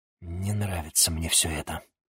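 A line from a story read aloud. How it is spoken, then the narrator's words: Whisper. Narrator (Russian): прошептал чернокнижец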